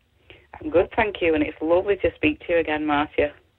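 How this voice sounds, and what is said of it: Manchester English accent. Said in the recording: “great Manchester accent.”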